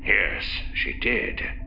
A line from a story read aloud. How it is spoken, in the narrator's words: Bakeef said grimly